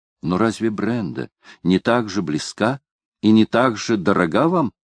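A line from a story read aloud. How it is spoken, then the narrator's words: Plain. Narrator (Russian): спросил Мертон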